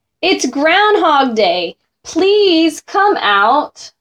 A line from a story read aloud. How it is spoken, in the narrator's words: The people added with a shout